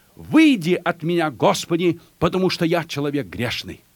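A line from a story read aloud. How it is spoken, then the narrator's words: Awed exclamation. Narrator (Russian): Петр, припав к коленам Иисуса, воскликнул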